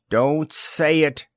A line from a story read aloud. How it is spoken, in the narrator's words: said Diane shakily